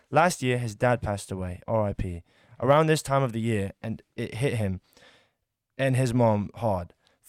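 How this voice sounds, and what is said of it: Put-on accent. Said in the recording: “I'm sorry, I'm cutting the accent.”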